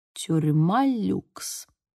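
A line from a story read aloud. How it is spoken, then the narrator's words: Muttered. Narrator (Russian): пробормотала я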